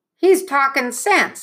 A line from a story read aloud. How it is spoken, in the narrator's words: someone called out